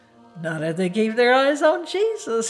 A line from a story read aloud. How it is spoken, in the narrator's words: he chuckled